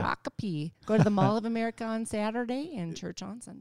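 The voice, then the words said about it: Put-on Southern accent. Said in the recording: “I threw a Southern accent in there ... It was pretty good though.”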